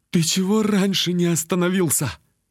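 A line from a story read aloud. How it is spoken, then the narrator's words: Strained, forced out. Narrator (Russian): выдавил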